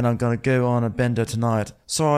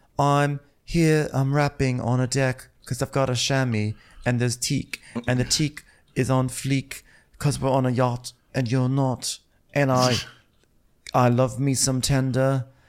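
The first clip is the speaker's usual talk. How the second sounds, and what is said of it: Put-on Chinese accent. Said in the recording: “in her Chinese accent ... was that a totally offensive Chinese accent?”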